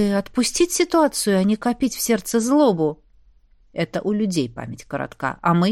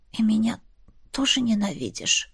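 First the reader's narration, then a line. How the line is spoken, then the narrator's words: Barely audible question. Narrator (Russian): спросила я едва слышно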